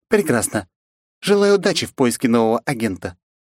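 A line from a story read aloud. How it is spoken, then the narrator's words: Snorting, dismissive. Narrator (Russian): хмыкнув, произнесла Оливия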